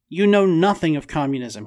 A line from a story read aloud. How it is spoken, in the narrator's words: he shouted